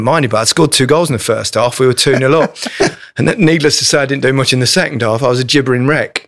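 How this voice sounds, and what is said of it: Usual voice. Nothing is said of it.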